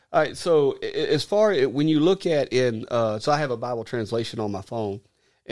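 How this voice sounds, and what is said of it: Southern American Arkansas accent. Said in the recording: “Sorry for the Arkansas accent, even though I'm from South Carolina by way of Arkansas.”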